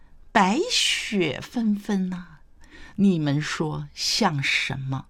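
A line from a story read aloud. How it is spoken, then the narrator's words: Smiling question. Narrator (Chinese): 谢安微笑问道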